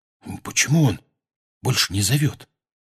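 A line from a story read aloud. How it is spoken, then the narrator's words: Whisper. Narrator (Russian): прошептал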